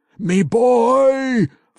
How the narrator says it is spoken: the dwarf yelled with all his rage

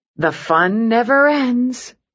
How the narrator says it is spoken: the nurse said wearily

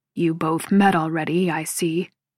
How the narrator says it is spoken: Jake grumbles

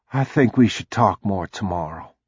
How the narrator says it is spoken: she said quietly

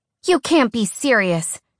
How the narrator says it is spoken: she cried

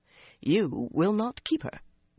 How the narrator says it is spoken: Gawain replied calmly

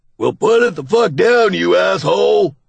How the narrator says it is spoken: Doug hollers

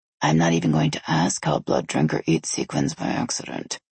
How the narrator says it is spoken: Essie muttered

